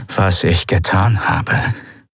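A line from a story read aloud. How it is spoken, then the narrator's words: Rough-voiced explanation. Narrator (German): erklärte Monaro mit rauer Stimme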